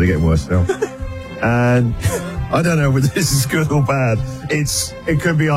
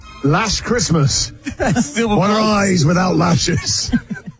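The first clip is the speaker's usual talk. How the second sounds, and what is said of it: Put-on Scottish accent. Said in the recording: “Don't know why I've got a Scottish accent there.”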